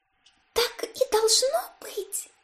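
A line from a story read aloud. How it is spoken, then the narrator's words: Whispered. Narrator (Russian): прошептала девушка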